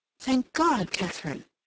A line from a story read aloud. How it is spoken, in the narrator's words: she exclaimed